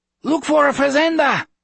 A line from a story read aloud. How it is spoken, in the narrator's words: Chevy yelled from the front